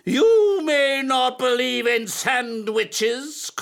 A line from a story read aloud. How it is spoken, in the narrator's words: cried his teacher